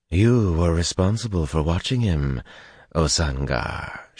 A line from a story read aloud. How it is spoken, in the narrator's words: she went on, her voice caressing every syllable